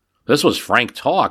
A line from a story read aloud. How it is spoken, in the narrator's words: Hudson says